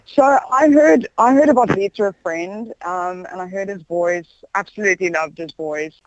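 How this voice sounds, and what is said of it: South African accent. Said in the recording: “you've kept your SA accent ... keeping your South African accent”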